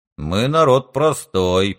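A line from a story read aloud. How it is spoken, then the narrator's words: Father grumbling. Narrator (Russian): проворчал отец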